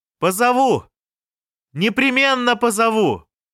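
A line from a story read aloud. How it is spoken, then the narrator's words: Shouted. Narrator (Russian): прокричал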